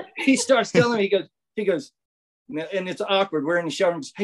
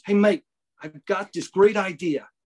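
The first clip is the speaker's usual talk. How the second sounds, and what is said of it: Imitated Australian accent. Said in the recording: “I want to start speaking Australian, like I have some accent.”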